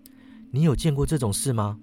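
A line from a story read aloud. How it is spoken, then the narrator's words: Skeptical, eyebrows raised. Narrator (Chinese): 我扬眉说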